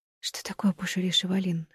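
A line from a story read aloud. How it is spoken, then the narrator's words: Whispered question. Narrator (Russian): шепотом спросила Стелла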